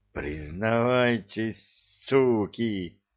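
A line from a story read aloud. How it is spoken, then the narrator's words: Furious hiss. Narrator (Russian): прошипел Юрий, от ярости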